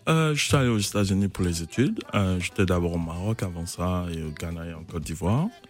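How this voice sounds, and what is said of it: Charming foreign-tinged accent. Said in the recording (French): “vous avez vécu quelques années aux États-Unis, d'où cet accent charmant”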